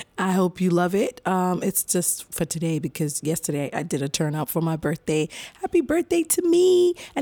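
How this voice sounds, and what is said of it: Raspy voice. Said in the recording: “my voice sounds really raspy.”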